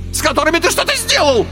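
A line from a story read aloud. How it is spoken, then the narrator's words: Shrieked. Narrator (Russian): взвизгнул Карбулон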